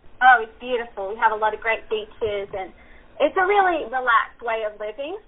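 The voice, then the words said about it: Australian accent. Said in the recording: “your beautiful accent. You're originally from Australia?”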